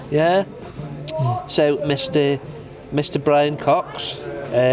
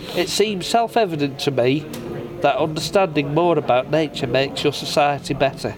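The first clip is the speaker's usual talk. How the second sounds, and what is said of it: Put-on Manchester accent, mixed with Liverpudlian. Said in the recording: “Shall they do this in a Manchester accent? ... Are you going to do Manchester, or are you going to get it mixed up with Liverpudlian? ... So a mix. ... It was a mix, wasn't it?”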